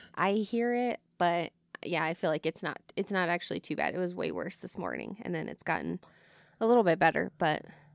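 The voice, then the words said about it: Rough, hoarse smoker-like voice. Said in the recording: “I have been sick, which is why I sound like a smoker ... My throat's a little rough”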